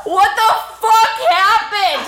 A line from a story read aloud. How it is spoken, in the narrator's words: He yells at me